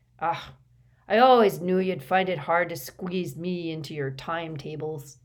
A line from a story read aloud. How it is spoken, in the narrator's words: he said gruffly